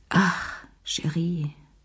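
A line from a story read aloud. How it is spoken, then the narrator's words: Sighing. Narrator (German): seufzte sie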